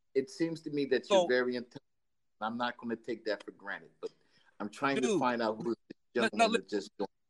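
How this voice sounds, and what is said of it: Italian New York accent. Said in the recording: “I can hear Italian New York accent”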